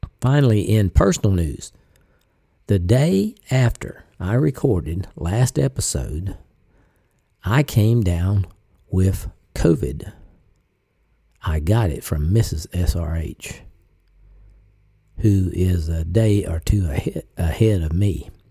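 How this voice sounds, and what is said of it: Slightly sick, unwell-sounding voice. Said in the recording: “You can kind of tell it in my voice if you listen closely. I'm kind of struggling through this ... I do have a lingering cough”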